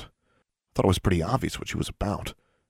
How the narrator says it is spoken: Alexandra muttered

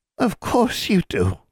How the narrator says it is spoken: the hag all but cooed

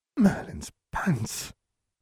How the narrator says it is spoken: Ginny breathed

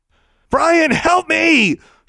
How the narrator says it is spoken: screamed

